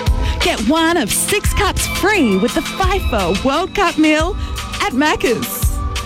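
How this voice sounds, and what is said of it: Enthusiastic radio advertising voice. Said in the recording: “put on my radio advertising voice. ... I'm going to give it an enthusiastic edge”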